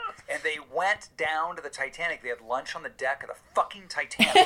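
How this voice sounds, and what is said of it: Usual voice. Nothing is said of it.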